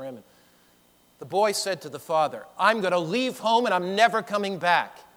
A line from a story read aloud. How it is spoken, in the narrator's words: he yelled